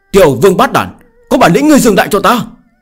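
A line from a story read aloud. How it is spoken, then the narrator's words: Angry. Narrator (Vietnamese): Tiêu Kiếm Minh giận dữ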